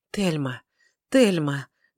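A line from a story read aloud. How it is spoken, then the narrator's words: Fervent whisper. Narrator (Russian): горячо зашептал он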